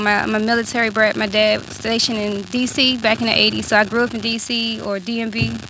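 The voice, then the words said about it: Hard-to-place American accent. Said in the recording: “I got a crazy accent, so, you know, people, you know, think I'm from a lot of places.”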